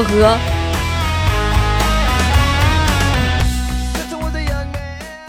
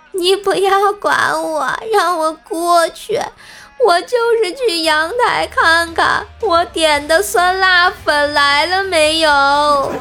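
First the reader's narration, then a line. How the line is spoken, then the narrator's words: Weak crying. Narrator (Chinese): 无力的挣扎，哭着说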